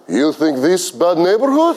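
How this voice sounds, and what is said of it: Fake Russian accent. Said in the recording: “fake a Russian accent”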